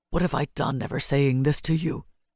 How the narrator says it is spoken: he said hoarsely

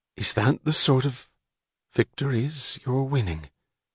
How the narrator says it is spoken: she whispered

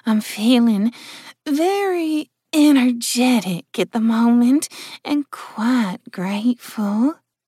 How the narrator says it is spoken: purred the imp

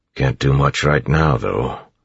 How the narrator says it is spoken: Clubs grumbled

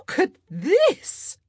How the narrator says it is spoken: Portia Featherington squealed

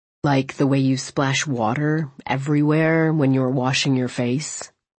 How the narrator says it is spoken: He drawled

